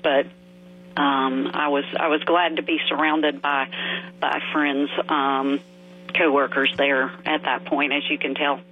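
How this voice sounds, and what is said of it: Choked up, emotional voice. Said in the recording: “Getting a little choked up just talking about it now.”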